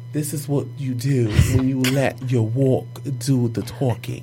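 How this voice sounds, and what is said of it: Put-on English accent. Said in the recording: “I'm going to do it in an English accent.”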